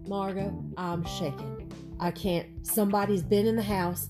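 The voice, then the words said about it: Low-voiced put-on Southern accent. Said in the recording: “She's very Southern and kind of low voice ... Low, but do the Southern accent. ... That's good.”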